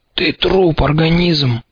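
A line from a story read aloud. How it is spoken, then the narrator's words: Sighing, half-strangled. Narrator (Russian): вздохнул полузадушенный клещ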